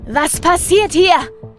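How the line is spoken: Shrieking clown. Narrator (German): kreischt der schwarz-weiße Clown

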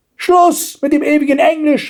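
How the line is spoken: Grandmother shouting. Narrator (German): schrie die Großmutter

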